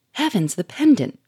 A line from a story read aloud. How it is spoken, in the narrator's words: cried Sonia, who was watching the scene with parted lips and amazed eyes